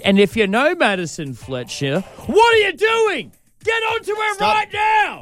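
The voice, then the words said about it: Yelling, loud call to action. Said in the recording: “Don't yell at them, please.”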